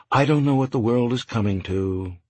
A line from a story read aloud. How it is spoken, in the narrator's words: she said sadly